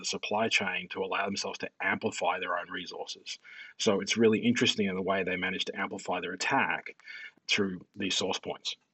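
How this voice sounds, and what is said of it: Calm-sounding foreign accent. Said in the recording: “accent really makes this sound a lot more zen”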